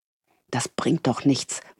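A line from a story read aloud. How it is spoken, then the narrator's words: Frustrated murmur. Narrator (German): murmelte sie frustriert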